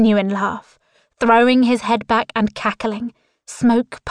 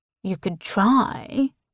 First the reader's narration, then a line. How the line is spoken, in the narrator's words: Tristan drawls